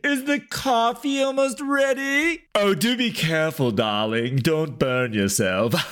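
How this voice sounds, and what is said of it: Posh British queen voice. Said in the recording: “try the queen voice”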